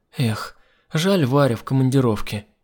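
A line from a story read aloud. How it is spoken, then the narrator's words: Sighed. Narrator (Russian): вздохнула Алена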